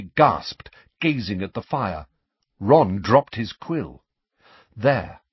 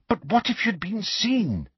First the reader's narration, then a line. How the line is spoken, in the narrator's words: said Hermione, anxiously